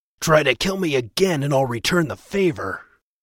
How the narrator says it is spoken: With a growl, said

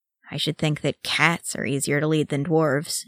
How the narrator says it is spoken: she muttered

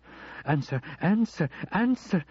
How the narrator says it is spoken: she shrieked at the phone

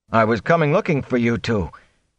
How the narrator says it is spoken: he panted

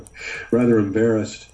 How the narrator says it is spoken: Andre laughed

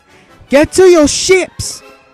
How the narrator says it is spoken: Padme shouted at her pilots

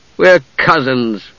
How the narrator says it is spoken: Palin said miserably

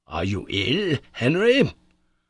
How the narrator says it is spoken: continued the professor in an anxious tone

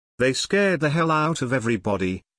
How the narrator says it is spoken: said Leslie

